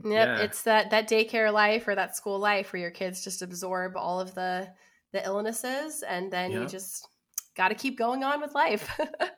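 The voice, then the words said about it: Nasal, congested voice. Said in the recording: “I have had a cold for like a week and a half. So if my voice sounds nasally and congested”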